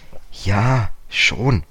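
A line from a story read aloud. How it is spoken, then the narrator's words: Hesitant. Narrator (German): sagte George zögernd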